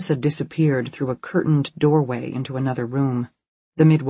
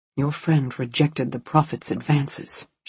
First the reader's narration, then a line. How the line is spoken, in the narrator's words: she whispered, close to Kirsten's ear